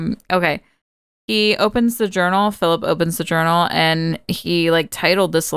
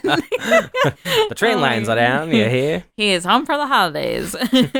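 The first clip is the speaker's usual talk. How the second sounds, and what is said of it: Put-on transatlantic accent. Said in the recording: “I don't know why I'm getting a transatlantic accent.”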